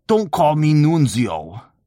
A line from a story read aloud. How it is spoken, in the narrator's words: growled